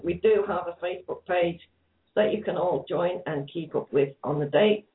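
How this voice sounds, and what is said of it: Hoarse, fading voice. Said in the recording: “as you can hear, guys, I'm losing my voice very, very fast”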